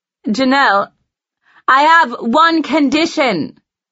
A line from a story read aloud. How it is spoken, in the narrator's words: I yell toward the phone